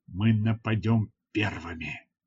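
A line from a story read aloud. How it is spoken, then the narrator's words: Whisper. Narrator (Russian): прошептал я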